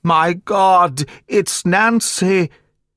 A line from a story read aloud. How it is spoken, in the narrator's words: screamed out in a dreadful voice